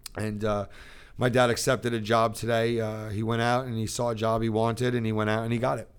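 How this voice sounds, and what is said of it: Emotional, choked-up voice. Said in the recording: “I'm making myself a little emotional right now”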